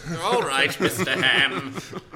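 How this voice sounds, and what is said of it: Put-on, so-so British accent. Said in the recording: “I made that chauffeur British ... Kind of British. ... You don't like my British accent.”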